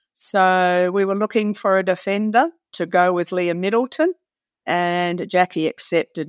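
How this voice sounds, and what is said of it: Australian accent. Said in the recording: “people will be able to detect from your accent that, you know, you're not a native to the UK here. You're a former Australian Diamonds player”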